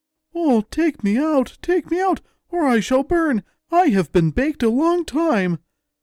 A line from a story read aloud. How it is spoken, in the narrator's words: the bread cried out